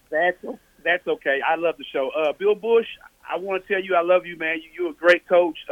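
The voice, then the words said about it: Southern country Tennessee accent. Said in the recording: “my country accent from Tennessee”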